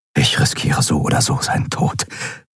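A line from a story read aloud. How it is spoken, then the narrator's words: Whispered. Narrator (German): flüsterte er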